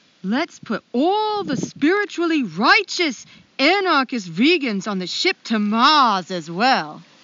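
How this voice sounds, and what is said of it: Deliberately bad put-on Maine accent. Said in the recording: “I am going to kill this Maine accent ... In a bad way, just in a bad way ... This is going to be bad”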